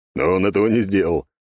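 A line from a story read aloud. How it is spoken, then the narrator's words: General, wry snort. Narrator (Russian): хмыкнул мой первый генерал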